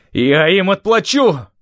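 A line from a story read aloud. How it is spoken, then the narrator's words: Wild scream. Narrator (Russian): На вершине Бейзелонского перевала Стив дико заорал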